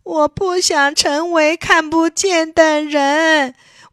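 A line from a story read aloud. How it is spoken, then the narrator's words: Loud, crying. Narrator (Chinese): 托利亚哭起来了，大声说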